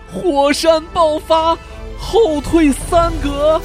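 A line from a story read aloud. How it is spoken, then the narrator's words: Shouted. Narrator (Chinese): 他叫道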